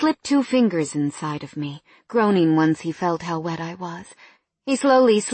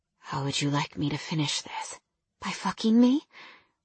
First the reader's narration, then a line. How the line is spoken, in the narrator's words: He whispered